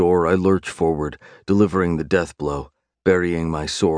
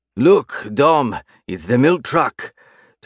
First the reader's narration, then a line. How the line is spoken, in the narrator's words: Tobias roars